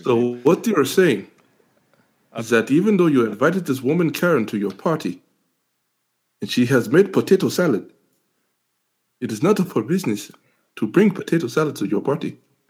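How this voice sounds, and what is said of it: Put-on accent. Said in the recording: “you've been practicing this accent”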